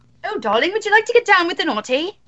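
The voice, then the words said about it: Put-on British accent. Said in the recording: “The British accent. No, do that with the British accent.”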